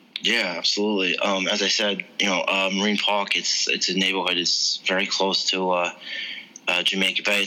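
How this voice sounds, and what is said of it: New York accent. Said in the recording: “your accent is a dead giveaway that you are a New York native”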